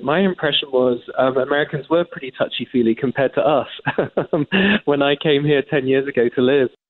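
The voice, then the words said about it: English accent. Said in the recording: “as an Englishman, as you can tell by my accent”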